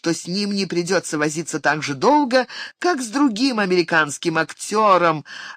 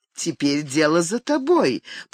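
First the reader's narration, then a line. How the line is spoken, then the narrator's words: Inviting purr. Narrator (Russian): призывно промурлыкала она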